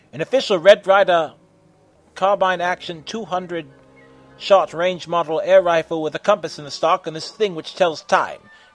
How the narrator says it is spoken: Mikoto shouted

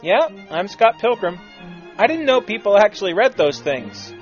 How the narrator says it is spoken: smiled and answered with a chuckle

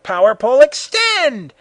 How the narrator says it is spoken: Goku yelled

